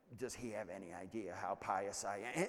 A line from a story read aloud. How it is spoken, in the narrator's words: she's muttering